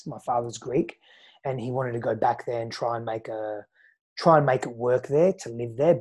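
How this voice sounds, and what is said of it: Australian accent. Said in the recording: “hence the Australian accent ... that's the Australian accent”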